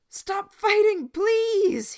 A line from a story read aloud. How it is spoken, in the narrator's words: screamed